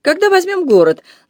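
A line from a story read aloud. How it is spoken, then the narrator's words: Insolent laughter. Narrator (Russian): нагло расхохотался он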